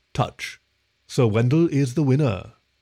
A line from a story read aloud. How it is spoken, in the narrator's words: Observant calmly announced